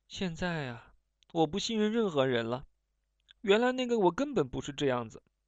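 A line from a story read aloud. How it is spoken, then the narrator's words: Sighing. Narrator (Chinese): 申玉君叹了口气说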